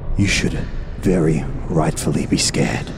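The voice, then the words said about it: Intense, booming near-whisper. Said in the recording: “my voice kind of intensifies and booms out a little bit more ... in almost like a whisper that they would hear very intensely”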